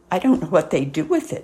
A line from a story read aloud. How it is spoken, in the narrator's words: said Mrs